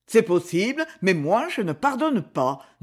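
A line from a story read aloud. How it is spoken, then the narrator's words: Harsh. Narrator (French): dit-il durement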